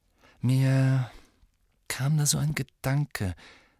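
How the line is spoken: Hesitant. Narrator (German): sagte Harry zögernd

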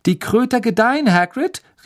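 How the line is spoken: Calling out. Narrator (German): rief Harry

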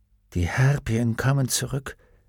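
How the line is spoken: Quiet. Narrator (German): sagte er leise

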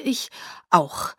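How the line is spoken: Stammering. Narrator (German): stammelte

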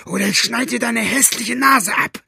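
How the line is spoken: Roaring. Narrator (German): brüllte Buster

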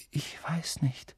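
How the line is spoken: Said quietly. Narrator (German): sagte Harry leise

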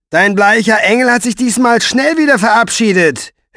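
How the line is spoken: Mocking. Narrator (German): höhnte er

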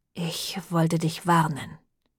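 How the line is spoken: Quiet. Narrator (German): sagte leise

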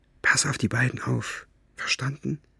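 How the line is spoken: Whispered. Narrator (German): flüsterte

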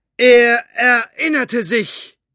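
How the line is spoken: Woman reading aloud loudly. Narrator (German): las sie mit lauter Stimme weiter

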